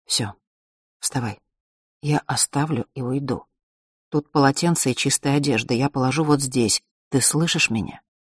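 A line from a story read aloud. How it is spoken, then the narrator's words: In an undertone. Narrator (Russian): сказала вполголоса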